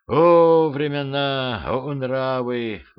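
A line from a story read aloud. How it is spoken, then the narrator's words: Devil sighing. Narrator (Russian): вздохнул дьявол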